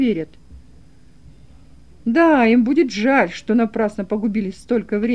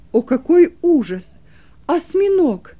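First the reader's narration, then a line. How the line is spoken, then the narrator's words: Exclaimed. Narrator (Russian): воскликнул я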